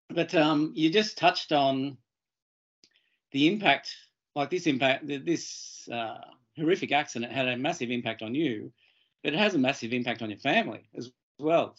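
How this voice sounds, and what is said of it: Croaky voice from a cold. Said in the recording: “apologize for my voice ... I've got a bit of a throat cold or a head cold, so I'm a bit croaky”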